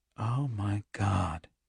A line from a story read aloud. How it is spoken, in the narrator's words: Andy said faintly